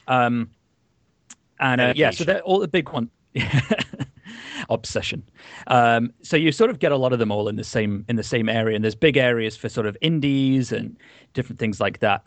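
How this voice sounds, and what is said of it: Sick-sounding voice. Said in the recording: “excuse my voice. I am quite ill at the moment.”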